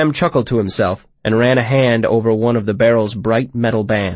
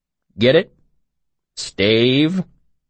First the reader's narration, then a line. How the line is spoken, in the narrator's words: Coat groaned a bit